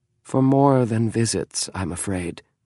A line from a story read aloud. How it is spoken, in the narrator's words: James said sadly